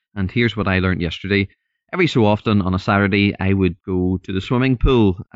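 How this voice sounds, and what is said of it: Northern Irish accent. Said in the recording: “I'm from Northern Ireland, so hopefully you can understand the accent”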